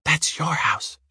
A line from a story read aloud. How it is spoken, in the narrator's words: she whispered, as if it was a secret between her and Uwe